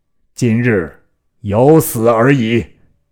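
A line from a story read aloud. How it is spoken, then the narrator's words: Loud. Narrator (Chinese): 公大声曰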